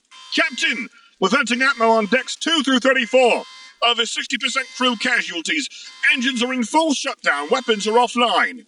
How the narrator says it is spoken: someone shouted

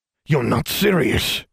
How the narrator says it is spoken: he growled

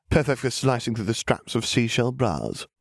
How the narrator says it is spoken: he chuckled

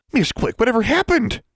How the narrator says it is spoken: She exclaimed

